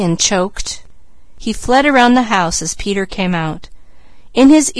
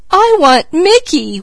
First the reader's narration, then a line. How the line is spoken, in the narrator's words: wailed Peaches